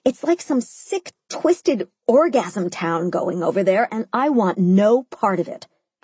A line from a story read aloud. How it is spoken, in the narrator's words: I said, chewing furiously on my lettuce